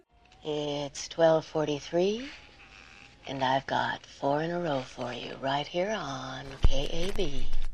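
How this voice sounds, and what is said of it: Over-the-top sultry radio DJ voice. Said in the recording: “her incredibly insipid, over-the-top attempt at a sexy voice on the radio ... The radio voice is, it's a bit much.”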